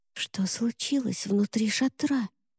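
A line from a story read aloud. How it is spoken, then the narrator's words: Whispered question. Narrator (Russian): шепотом спросила Шарлотта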